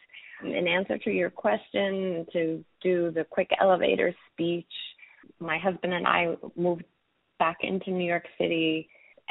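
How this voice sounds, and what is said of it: Slightly hoarse voice. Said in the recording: “forgive my voice. Do the best I can, but a little hoarse.”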